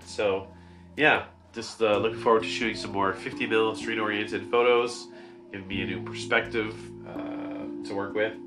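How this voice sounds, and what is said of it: Congested, stuffed-up nasal voice. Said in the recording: “I sound a bit stuffed up, but it's because I'm allergic to my bunny”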